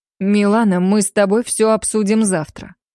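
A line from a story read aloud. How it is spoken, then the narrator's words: Cold, reassuring man. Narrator (Russian): холодным тоном заверил меня муж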